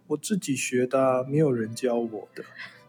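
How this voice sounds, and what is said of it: Quiet mumbling child's voice. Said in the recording (Chinese): “小小声地回说 ... 就是很小声的这样子嘟囔这样子”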